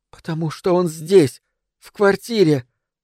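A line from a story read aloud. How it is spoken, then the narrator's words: Frightened, breathless, halting. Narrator (Russian): сказала она в паузах, испуганно переводя дыхание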